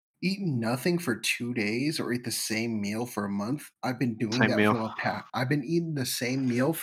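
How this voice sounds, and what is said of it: Usual voice. Nothing is said of it.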